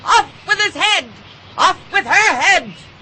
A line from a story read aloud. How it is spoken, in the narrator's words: the Queen never left off quarreling with the other players and shouting